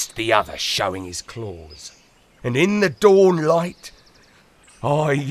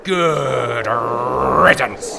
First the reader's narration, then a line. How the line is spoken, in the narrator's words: I growled